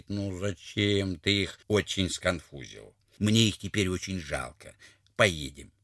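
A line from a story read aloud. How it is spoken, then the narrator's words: Sad, the tsar. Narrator (Russian): государь Платову грустно говорит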